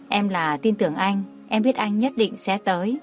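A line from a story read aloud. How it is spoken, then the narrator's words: Soft, smiling. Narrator (Vietnamese): Ân Thiên Thiên mỉm cười, khẽ nói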